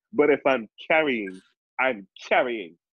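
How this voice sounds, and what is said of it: New York accent. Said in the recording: “I say that with my New York accent.”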